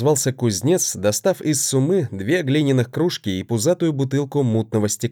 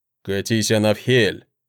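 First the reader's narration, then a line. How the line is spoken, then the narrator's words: Man grumbling. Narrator (Russian): проворчал мужчина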